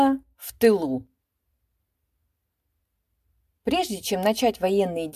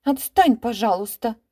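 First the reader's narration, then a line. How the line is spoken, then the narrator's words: Angry interruption. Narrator (Russian): сердито оборвала ее Буба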